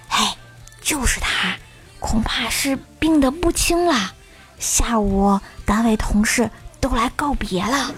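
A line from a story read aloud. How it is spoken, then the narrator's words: Low voice. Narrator (Chinese): 有人低声说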